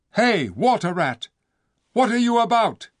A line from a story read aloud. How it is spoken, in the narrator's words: cried the king